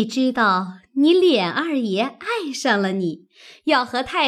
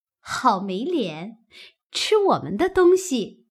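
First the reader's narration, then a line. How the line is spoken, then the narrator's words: Laughing. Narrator (Chinese): 鸳鸯笑道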